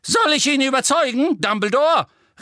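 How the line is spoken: Witch calling out. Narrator (German): rief eine Hexe

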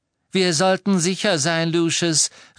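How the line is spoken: Cold clear woman's call. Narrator (German): rief Narzissa mit ihrer kalten, klaren Stimme ihrem Mann zu

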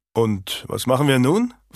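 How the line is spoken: Plain. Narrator (German): fragte Owen

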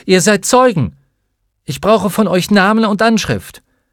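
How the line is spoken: Called out. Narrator (German): rief sie

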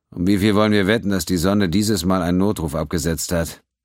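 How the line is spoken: Sigh. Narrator (German): Pennington seufzte

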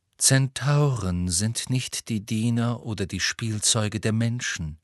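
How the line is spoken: Calm. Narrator (German): sagte Firenze ruhig

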